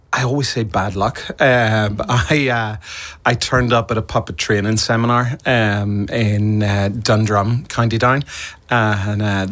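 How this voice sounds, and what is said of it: Mild Northern Irish accent. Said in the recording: “With an accent like that, I have to say, you're not from the west of Ireland... I'm from the north. I'm from County Down... my accent has to be quite mild”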